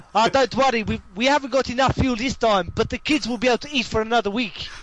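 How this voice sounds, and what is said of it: Put-on South African accent. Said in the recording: “such fucking a good what? South African accent.”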